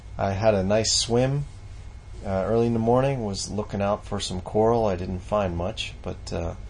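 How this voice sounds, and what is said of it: Tired, subdued voice. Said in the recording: “my voice sounds a little down. I feel a little tired today”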